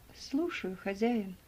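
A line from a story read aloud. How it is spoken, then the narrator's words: Calm reply. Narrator (Russian): спокойно ответил Том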